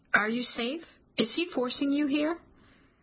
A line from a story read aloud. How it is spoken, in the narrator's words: My voice is shaky, my throat tight